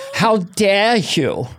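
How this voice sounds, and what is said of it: Greta Thunberg impression. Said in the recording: “My newest impression ... Greta Thunberg.”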